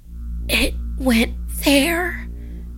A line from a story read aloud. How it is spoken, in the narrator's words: she whispered